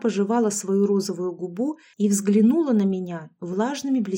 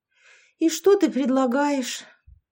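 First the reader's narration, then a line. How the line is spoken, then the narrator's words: Heavy sigh. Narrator (Russian): Я тяжело вздохнула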